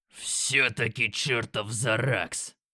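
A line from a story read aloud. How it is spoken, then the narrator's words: Growling. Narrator (Russian): прорычал Грок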